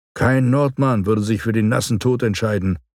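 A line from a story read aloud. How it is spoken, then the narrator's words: Said with a shudder. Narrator (German): sagte, und es überlief mich kalt bei dem Gedanken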